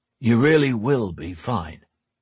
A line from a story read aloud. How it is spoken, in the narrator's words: he said in a reassuring tone